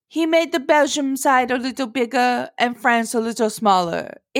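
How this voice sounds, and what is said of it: Vaguely European put-on accent. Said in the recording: “Have you been working on your French accent? ... That was like a vaguely European accent.”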